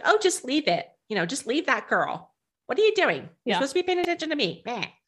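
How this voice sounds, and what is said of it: Strident nagging woman voice. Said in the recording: “We have this strident woman who's cowing him into submission ... I'm giving her that voice because that's how she sounds in my head”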